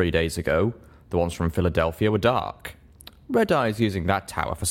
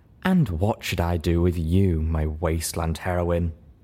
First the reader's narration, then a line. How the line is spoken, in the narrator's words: Armage purred